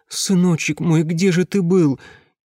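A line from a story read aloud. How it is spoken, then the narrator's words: Convulsive sobbing. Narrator (Russian): судорожно разрыдалась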